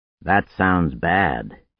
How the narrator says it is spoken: he said gravely

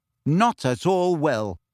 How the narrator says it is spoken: said Harry firmly

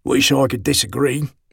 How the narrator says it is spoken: Colonel Zomson growled after a moment

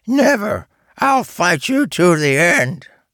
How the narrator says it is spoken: he used a high, squeaky voice for his imitation of Charles

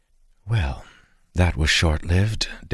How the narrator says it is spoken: Dalen whispered to Arik

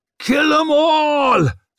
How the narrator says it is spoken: screamed the nail, since there was no need for surprise any longer, just for fury

